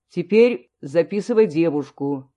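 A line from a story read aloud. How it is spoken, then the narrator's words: Sternly. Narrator (Russian): строго сказал Волков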